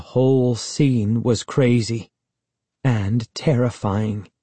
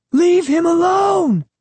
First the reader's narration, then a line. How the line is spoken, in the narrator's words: Sari screamed